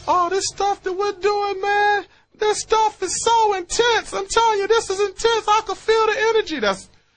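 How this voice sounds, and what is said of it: Imitates another person's voice. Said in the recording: “That's my Marshall impersonation.”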